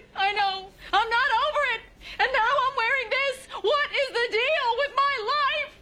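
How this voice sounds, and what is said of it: Crying voice sounding like Jerry Seinfeld. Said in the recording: “Are you imitating me? ... This is what I sound like when I cry.”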